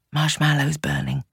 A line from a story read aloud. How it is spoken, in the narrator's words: she said softly